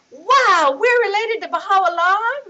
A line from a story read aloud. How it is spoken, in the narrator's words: Riaz shouted, jumping up and down